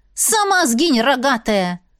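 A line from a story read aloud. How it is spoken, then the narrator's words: Silent inner snap. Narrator (Russian): огрызнулась мысленно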